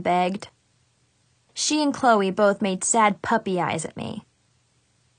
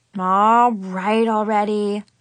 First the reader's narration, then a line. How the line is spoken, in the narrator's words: I groaned